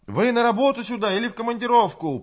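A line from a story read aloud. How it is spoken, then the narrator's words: Shout lost in wind. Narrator (Russian): прокричала Людмила, но ветер отбросил голос ее в сторону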